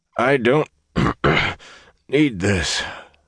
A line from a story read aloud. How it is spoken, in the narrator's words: the Gleeman wheezed